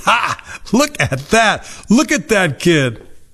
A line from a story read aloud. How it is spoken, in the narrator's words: His friends laughed hard and laughed like mockers and scoffers